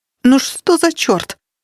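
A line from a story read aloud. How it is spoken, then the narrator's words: Exclamation. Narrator (Russian): воскликнула она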